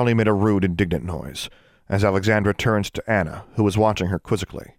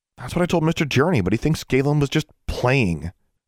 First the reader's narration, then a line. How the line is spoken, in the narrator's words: Alexandra snorted